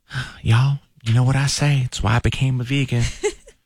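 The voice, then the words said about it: Imitates another person's voice. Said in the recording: “in my Dallas voice”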